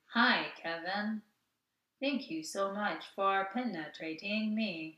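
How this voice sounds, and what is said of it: Robotic voice. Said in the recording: “robot voice”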